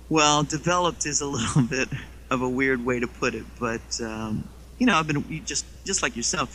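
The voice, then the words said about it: English accent. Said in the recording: “How did you develop your English accent”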